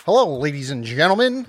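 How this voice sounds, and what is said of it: Old-time radio announcer voice. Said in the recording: “Old-timer radio guy here... Old-time radio guy... I think it's called the Mid-Atlantic accent, which I don't have yet”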